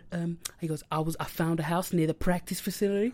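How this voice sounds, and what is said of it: Imitates a put-on American-sounding voice. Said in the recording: “he's speaking like this ... He proper talks to be American”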